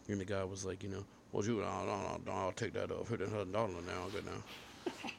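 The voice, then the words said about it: Put-on Deep South accent. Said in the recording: “He was also Southern. ... Good impression there, man. ... I tried to sound like that ... Deep South people”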